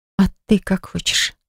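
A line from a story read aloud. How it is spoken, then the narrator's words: Soft quiet question. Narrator (Russian): спросила она тихонько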